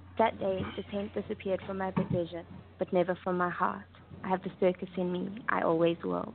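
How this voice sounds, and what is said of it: Cute-sounding accented voice. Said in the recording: “with your accent, you sound so cute”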